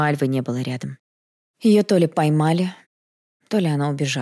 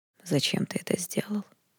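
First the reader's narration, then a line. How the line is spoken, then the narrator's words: Hoarse breaking voice. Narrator (Russian): Хриплым срывающимся голосом повторил свой вопрос император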